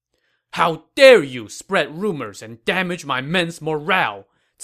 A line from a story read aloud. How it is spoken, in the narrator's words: Cao Cao said angrily